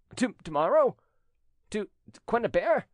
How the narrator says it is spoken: stammered Trumeau

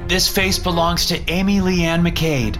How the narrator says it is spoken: called out

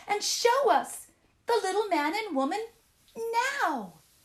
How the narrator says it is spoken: the children cried

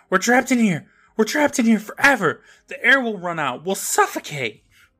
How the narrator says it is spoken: Libby starts screaming

